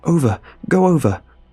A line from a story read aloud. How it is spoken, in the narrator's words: I gasped